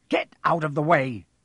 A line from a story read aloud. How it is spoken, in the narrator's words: snapped Ron